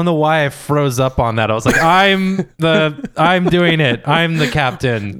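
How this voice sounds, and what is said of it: Usual voice. Nothing is said of it.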